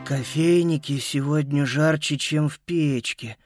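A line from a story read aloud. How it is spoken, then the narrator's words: Moaning. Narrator (Russian): стонал Боб Эндрюс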